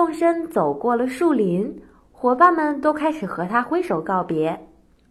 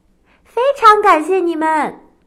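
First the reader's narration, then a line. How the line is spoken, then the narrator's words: Shouting. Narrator (Chinese): 他喊着说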